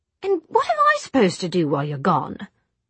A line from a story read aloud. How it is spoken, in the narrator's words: Jessamine said crossly